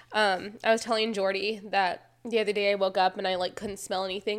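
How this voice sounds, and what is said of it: Congested, allergy-affected voice. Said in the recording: “I do apologize for my voice today. And we are having some crazy allergies”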